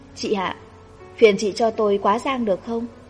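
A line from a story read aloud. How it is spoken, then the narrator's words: Smiling. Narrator (Vietnamese): Cô mỉm cười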